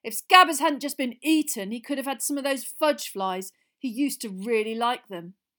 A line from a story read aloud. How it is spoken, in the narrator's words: Ron chose that moment to say loudly